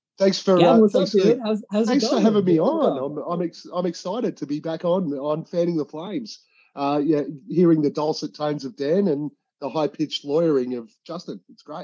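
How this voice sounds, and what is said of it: Australian accent. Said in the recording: “you'll recognize the accent because it's personally my favorite accent out there, like period, in general. It's an Australian accent.”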